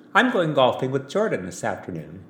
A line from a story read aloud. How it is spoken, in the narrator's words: she said